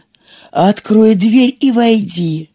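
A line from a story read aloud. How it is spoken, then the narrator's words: Feigned gentle voice, wolf. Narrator (Russian): сказал волк таким ласковым голосом, насколько он мог притвориться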